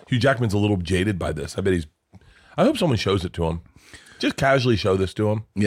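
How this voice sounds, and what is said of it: Usual voice. Nothing is said of it.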